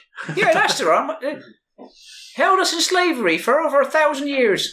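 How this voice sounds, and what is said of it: Shifting put-on character accent. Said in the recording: “My accent changed again.”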